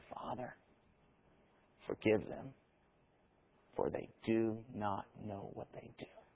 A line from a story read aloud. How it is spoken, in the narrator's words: in that moment of agony and gasping for breath, said